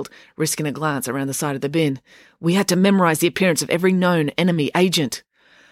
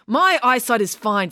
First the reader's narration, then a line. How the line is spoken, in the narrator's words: snapped Mum